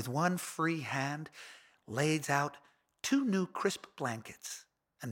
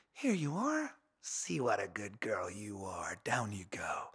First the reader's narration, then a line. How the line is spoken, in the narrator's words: She whispers